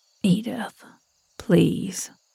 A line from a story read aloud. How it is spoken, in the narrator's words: Edgar whispered